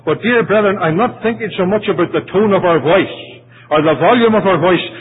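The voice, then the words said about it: Irish accent. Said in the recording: “you can forgive the Irish accent.”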